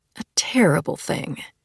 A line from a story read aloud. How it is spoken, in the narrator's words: she murmured as she hurried downstairs